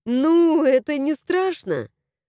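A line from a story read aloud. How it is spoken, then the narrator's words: Laughing. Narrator (Russian): рассмеялась я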